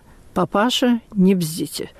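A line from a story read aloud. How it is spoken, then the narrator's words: Quiet, pointedly restrained. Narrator (Russian): У солдата заходили желваки, но он только сказал тихо и подчеркнуто сдержанно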